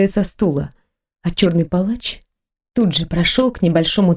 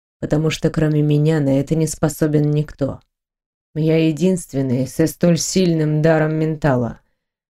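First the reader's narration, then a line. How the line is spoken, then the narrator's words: Calm reply. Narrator (Russian): спокойно ответил он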